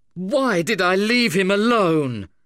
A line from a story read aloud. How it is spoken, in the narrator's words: I cried in desperation and remorse